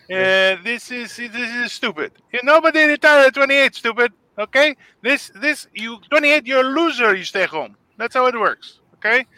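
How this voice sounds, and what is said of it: Put-on accent. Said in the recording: “I feel like I'm using an accent probably”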